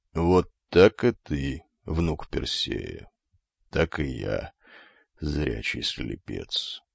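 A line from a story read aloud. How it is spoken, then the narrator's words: Quiet curt remark. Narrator (Russian): тихо бросил старик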